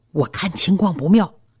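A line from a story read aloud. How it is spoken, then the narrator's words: Low voice. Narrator (Chinese): 低声说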